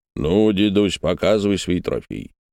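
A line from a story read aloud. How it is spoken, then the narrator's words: Booming drone. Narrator (Russian): прогудел Дегтяренко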